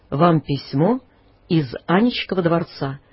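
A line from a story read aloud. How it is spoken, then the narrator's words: Pompous theatrical servant's tone. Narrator (Russian): важным тоном, каким говорят слуги в старинных мелодрамах, лакей сказал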